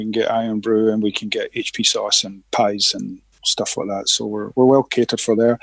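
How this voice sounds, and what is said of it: Scottish Glaswegian accent. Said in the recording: “I'm originally from Glasgow in Scotland... I love that you have not lost your accent.”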